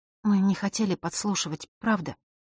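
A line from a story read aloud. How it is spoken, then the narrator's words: Quiet girl's voice. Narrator (Russian): наконец тихо произнесла девочка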